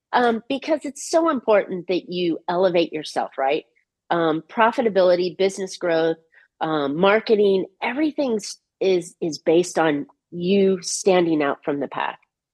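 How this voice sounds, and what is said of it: Hoarse, fading voice. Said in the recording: “as I lose my voice”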